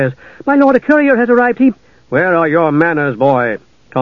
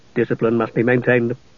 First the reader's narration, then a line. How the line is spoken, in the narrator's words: the knight added in an undertone